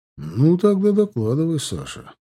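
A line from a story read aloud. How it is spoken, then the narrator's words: Sighing. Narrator (Russian): сказал Таран и вздохнул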